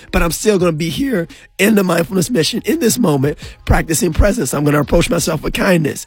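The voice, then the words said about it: Hoarse, strained voice. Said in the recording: “my voice is out ... I sound like Kermit the Frog or I sound like Darth Vader on the radio”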